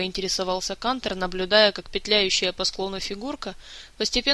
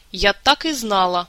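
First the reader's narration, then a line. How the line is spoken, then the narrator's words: Indignant lady's exclamation. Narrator (Russian): возмущенно воскликнула дама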